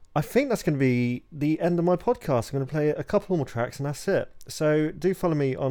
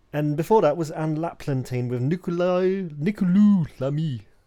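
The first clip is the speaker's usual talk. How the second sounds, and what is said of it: Put-on French accent. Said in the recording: “Do you like my French accent? It's pretty good, right?”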